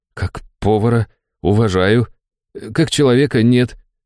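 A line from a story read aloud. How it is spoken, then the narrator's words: Slightly trembling voice. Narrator (Russian): слегка дрожащим голосом произнес Антоха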